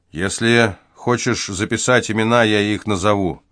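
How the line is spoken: Gloomy. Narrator (Russian): мрачно сообщил Дюрил

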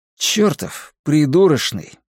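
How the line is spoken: Sighing. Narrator (Russian): я вздохнул

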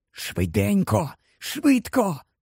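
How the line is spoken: Urgent whisper. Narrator (Ukrainian): прошепотів Гаррі

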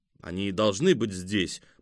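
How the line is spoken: Grumbling. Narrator (Russian): проворчал фон Хорст

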